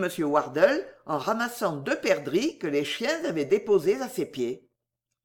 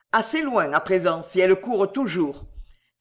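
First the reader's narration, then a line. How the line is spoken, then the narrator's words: Cold reply. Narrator (French): répliqua froidement M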